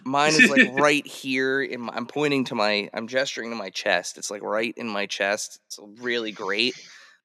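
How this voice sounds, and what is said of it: Squeaky voice with a cold. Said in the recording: “that was a squeaky hello, everybody. I have a little bit of a cold”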